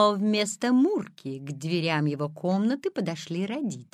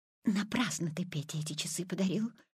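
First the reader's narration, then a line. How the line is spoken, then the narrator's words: Whispering mother. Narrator (Russian): шепотом сказала мама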